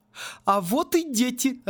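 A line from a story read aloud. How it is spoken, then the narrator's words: Joyful announcement. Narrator (Russian): радостно сообщила МакКонарейкл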